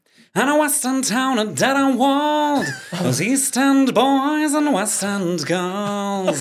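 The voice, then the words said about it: Imitates another person's singing voice. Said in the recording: “I do a really good Neil Tennant impression.”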